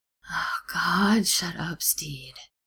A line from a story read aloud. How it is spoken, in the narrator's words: Ed moans